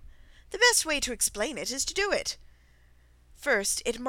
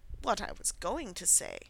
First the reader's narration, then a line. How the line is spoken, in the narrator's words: said the Dodo, in an offended tone